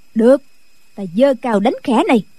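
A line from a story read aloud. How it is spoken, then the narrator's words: Sharp shout. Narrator (Vietnamese): Định Vật quát lên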